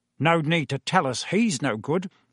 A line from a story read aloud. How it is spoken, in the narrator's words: snorted